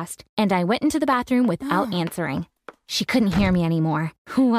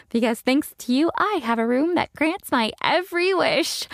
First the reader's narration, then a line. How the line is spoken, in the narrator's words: I said, laughing